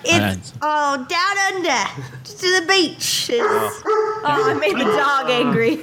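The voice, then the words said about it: Bad put-on Australian accent. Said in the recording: “That was a horrible Australian accent ... that was a really bad Australian accent ... I think you're all underestimating how good my Australian accent is.”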